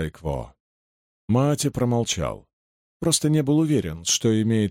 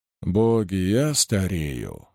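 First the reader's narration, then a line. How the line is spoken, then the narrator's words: Sighing. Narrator (Russian): вздохнул Дайкво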